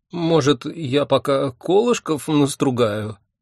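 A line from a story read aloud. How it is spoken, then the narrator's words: Timid suggestion. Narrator (Russian): робко предложил он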